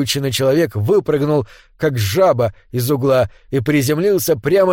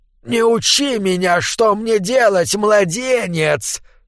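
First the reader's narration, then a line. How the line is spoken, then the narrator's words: Hissed. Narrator (Russian): прошипел он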